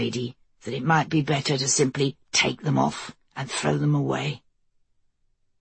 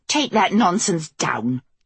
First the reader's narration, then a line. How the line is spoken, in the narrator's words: Kelsey snapped